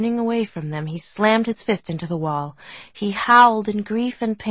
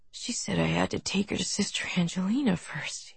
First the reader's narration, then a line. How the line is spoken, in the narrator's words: he whispered, his voice barely audible